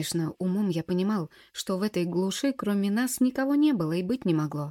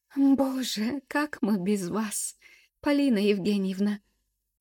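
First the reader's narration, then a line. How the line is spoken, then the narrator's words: Sobbing woman. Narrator (Russian): прорыдала бухгалтер Вера Алексеевна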